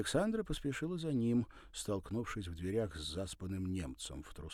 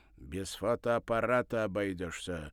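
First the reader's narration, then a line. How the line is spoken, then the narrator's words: Stern. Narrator (Russian): строго сказал Сашечка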